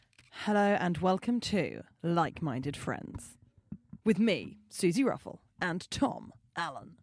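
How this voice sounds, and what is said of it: Radio DJ announcer voice. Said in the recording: “That was my sort of radio DJ voice. ... quite BBC News.”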